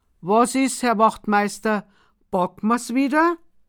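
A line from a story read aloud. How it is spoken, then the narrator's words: Polite call. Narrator (German): ruft er höflich zum Gendarm herüber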